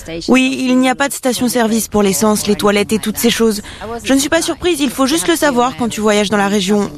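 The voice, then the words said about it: Slight English accent in French. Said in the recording (French): “Ils ont un petit accent... We're from York... Nous sommes de York en Angleterre.”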